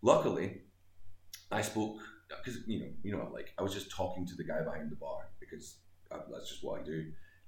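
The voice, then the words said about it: Scottish accent. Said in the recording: “he recognized my accent. He was like, "Where are you from?" I said, "Scotland."”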